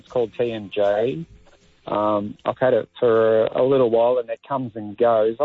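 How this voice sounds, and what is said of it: Grieving, emotional voice. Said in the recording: “I can almost hear the grief in your voice.”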